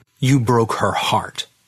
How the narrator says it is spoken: I snapped

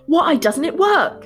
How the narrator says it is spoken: the king screamed at the charlatan

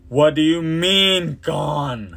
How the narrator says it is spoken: the high priest roared

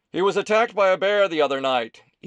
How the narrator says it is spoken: Ethan shouted from inside the depot

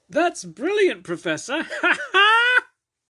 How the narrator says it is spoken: Temmie said through cackles

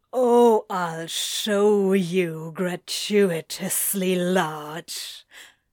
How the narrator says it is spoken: he growls

